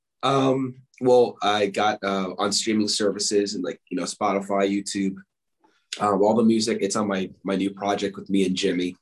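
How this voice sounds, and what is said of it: Hoarse, fading voice. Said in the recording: “I'm losing my voice here.”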